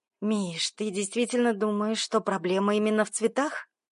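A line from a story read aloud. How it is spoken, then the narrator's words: Weary exhale. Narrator (Russian): Жданов устало выдохнул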